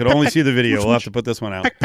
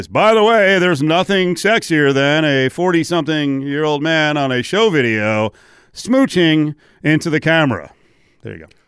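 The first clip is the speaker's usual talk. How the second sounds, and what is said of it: Announcer voice. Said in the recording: “announcer voice.”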